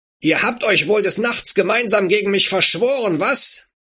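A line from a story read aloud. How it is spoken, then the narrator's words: Furious shouting. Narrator (German): Abu Jahl sprühte vor Wut und schrie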